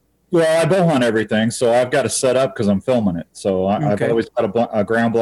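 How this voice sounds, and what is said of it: Usual voice. Nothing is said of it.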